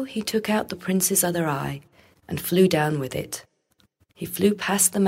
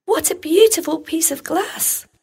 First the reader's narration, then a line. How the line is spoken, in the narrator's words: cried the little girl